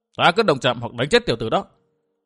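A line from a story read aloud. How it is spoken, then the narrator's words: Old woman's angry retort. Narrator (Vietnamese): Âm Tiêu quái bà sừng sốt trong thoáng mắt biến thành giận dữ quát trả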